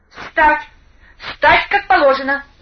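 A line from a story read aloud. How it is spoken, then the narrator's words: Official's shrill shriek. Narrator (Russian): взвизгнул дежурный помощник начальника колонии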